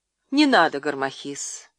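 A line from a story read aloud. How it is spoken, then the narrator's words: Calm, smiling. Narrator (Russian): спокойно проговорила она, улыбаясь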